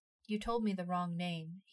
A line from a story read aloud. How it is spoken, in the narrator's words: he said